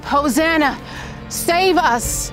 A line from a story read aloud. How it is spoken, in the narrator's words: shouts of